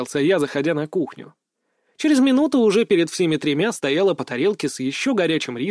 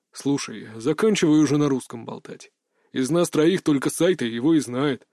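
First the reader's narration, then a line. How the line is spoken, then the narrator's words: Grumbled. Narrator (Russian): проворчал Ганс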